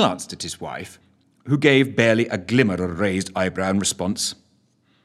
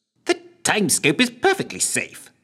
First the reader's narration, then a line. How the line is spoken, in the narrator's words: snapped Lushthorpe